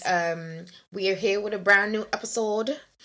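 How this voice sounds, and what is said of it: Put-on unidentified accent. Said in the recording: “I don't know what accent I just did there”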